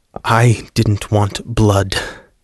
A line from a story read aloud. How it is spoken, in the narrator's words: Joseph finally replied, his voice tight in his throat